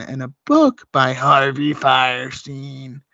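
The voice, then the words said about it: Imitates another person's voice. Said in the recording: “That's my Harvey impression. ... I like it. It's pretty good.”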